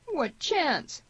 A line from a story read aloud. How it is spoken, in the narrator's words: groaned Tierney